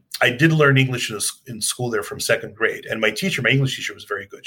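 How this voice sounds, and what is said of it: Light foreign accent. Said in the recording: “my accent is not as as as heavy as some of the other people who came at my age”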